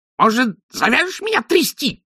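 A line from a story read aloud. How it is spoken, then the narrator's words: Indignant squeak, imp. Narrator (Russian): возмущенно пискнул бес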